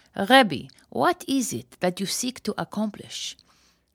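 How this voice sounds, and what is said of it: Put-on Israeli accent. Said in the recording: “let me use my Israeli accent here”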